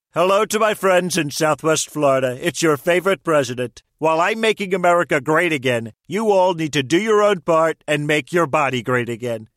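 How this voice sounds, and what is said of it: Celebrity voice impersonation. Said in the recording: “Celebrity voice impersonation.”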